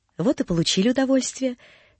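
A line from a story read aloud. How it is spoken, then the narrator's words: Said gently. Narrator (Russian): говорил ласково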